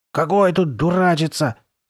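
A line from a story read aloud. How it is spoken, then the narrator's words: Hoarse objection. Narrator (Russian): сиплым голосом возразила Карли Бет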